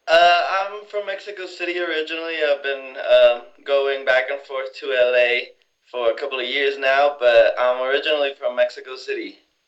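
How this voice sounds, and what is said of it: Speaks with a noticeable accent. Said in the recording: “I hear an accent.”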